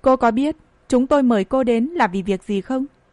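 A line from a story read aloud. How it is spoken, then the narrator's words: Stern voice. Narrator (Vietnamese): Người kia nghiêm giọng nói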